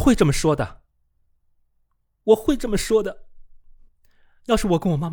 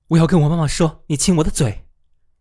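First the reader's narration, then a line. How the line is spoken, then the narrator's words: Stammering. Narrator (Chinese): 艾莫里结结巴巴的说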